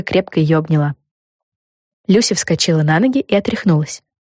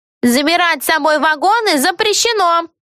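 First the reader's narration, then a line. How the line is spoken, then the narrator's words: Shouted from above. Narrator (Russian): крикнула сверху проводница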